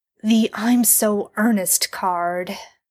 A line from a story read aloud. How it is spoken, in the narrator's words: Dean sighs